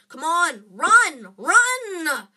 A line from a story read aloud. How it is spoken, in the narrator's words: Harry yelled at Hermione